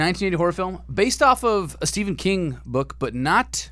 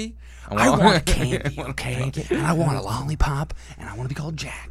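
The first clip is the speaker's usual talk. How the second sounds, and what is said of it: Imitates another person's voice. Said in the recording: “That's a good Jack Nicholson impression.”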